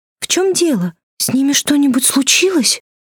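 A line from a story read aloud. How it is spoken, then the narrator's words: Timid question. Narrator (Russian): Робко спросила Фрёкен Снорк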